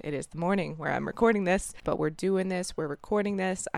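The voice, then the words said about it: Hoarse morning voice. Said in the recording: “If I have a weird, hoarse morning voice, you are correct.”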